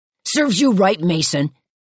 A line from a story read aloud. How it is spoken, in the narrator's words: the voice shouted